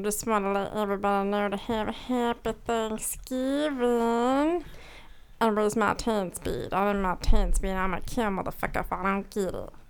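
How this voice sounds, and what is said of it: Meatwad impression. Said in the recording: “doing her Meatwad impression.”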